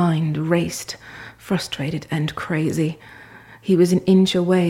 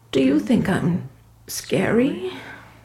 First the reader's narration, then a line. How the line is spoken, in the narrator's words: sobbed